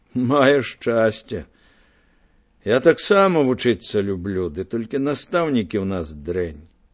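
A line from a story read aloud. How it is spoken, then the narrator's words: Sighing. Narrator (Belarusian): уздыхнуў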